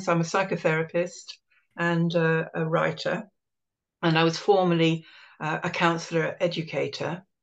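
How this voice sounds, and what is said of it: British accent. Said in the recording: “as you can hear from my voice, I'm a UK-based person.”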